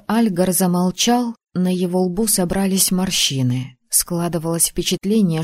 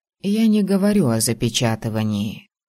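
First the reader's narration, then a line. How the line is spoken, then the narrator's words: Soft. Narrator (Russian): мягко произнес ректор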